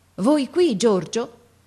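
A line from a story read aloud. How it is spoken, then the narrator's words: Father, amazed tone. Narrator (Italian): mio padre che dice in tuono di meraviglia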